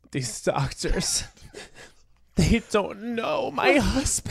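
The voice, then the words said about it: Melodramatic TV hospital patient impression. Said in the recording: “your impression of every like patient ever on, you know, something like Grey's Anatomy, but it's about them. They're the protagonist.”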